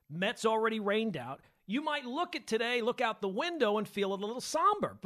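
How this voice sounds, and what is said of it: Excited, high-energy delivery. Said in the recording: “If you can hear it in my voice, I am pumped up.”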